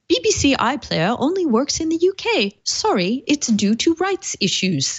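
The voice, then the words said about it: Put-on British accent. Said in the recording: “I really like your British accent. It's pretty good.”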